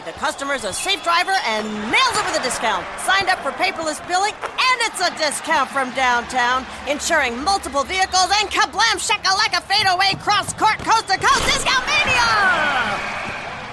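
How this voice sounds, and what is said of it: Excited play-by-play announcer voice. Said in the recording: “my impression of a play-by-play announcer who loves to save money”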